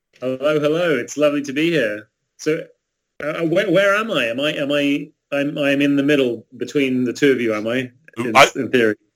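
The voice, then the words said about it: Accent from the UK. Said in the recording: “you're closer to Lauren, judging by your accent”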